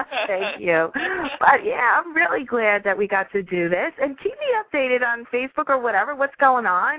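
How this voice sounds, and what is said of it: Slight New York accent. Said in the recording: “your little New York hint of the coffee... You have a very cute accent.”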